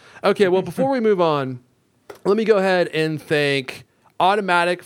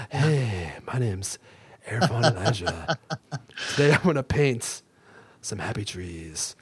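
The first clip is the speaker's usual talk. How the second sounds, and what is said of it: Whispered Bob Ross impression. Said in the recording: “As long as you're whispering... Bob Ross”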